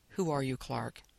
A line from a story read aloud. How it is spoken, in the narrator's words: she asked him quietly